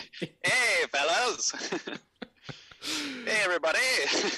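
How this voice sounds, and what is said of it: Put-on mid-Atlantic accent. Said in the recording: “Should I affect my mid-Atlantic accent?”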